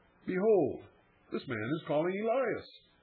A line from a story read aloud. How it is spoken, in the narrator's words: with mingled curiosity and sarcasm, they exclaim